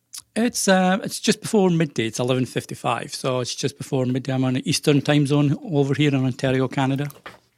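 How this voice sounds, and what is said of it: Softened Scottish accent. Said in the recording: “that's the best accent ever ... It sounds kind of Scottish ... A wee bit ... it's probably softened a lot”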